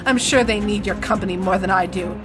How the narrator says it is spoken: she said bitterly

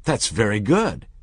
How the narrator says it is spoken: the manager exclaimed

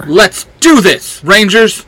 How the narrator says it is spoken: Red Ranger shouts

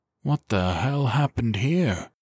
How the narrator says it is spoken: Sellers breathed

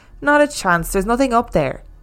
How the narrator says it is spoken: They all laughed at her and said things like

